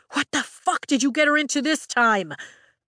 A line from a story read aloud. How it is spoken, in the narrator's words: Brennan shouts at Zayden